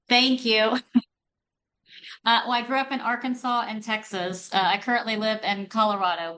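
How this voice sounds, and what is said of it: Southern US accent. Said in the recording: “Love that accent ... I have that southern accent”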